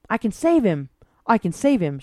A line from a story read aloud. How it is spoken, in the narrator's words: she called out